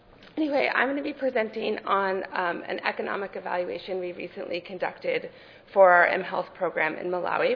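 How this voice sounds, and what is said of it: Cold-affected voice, sounds like teenage boy. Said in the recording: “I'm recovering from a cold, so I sound a little like a teenage boy today.”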